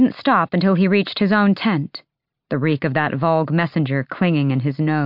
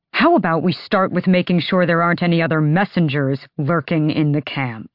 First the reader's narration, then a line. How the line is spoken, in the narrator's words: He snarled